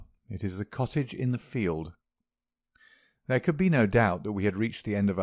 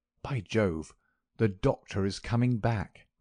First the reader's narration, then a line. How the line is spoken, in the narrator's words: cried Holmes